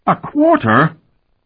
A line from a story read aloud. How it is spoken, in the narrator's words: Talon exclaimed